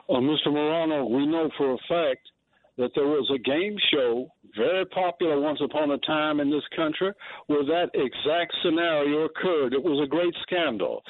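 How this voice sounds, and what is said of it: North Carolina accent. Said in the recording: “I love your North Carolina accent.”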